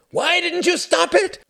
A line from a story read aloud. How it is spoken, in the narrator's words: screamed Klaus